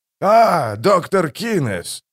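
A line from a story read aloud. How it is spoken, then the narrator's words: Exclaimed. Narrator (Russian): воскликнул водоторговец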